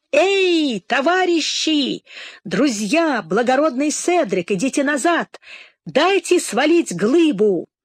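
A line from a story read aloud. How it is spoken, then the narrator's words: Shouting at full voice. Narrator (Russian): закричал во весь голос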